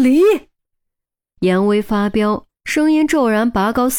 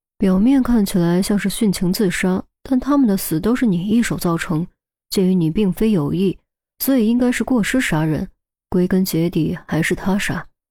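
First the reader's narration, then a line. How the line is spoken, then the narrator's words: Mumbling. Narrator (Chinese): 钟离继续嘟囔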